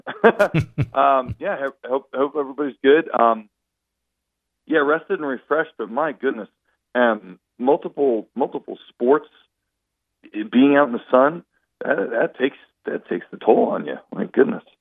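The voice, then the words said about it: Hoarse voice. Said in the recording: “I'm like hoarse today. We had another game yesterday. I'm hoarse all the time.”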